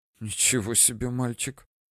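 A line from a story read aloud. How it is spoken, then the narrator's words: Whisper. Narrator (Russian): Шепот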